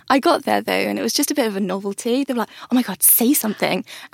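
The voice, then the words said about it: British accent. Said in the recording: “you had a British accent”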